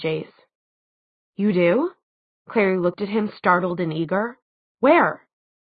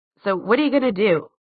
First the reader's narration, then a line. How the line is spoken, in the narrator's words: Simon asked sharply